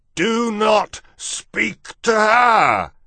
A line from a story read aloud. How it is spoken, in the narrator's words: thundered the king